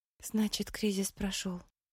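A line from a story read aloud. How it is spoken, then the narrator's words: Muttering woman. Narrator (Russian): пробормотала она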